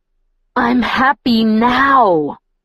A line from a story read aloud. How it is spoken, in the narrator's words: I growled fiercely through my teeth